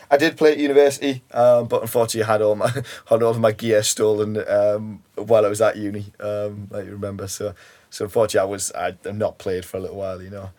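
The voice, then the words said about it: Geordie accent. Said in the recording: “unable to detect ... voice or accent, you are a Geordie. ... you're from Newcastle.”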